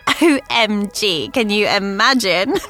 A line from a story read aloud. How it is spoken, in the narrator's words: Melody giggled